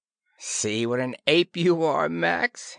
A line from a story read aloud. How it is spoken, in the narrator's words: he chuckled